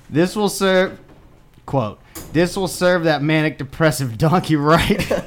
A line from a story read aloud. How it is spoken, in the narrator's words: laughed Pooh aloud